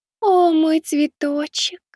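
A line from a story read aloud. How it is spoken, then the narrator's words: Cooing. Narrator (Russian): проворковала она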